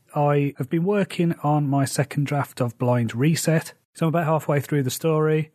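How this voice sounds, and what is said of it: Slightly rough, strained voice. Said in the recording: “My voice is still a bit dodgy”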